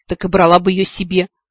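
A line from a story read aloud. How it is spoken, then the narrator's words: Scoffing duke. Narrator (Russian): фыркнул герцог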